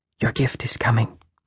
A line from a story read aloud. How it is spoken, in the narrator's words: she whispered